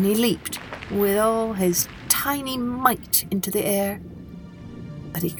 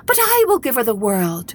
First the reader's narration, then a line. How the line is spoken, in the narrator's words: cried the goldfish